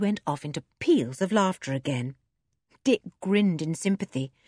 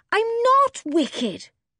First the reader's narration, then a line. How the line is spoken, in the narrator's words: said Joe indignantly